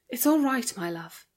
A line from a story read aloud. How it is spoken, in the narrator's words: she breathed in his ear